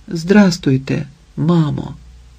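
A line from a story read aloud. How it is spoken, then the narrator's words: Whisper. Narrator (Ukrainian): Ліда напружилася і прошепотіла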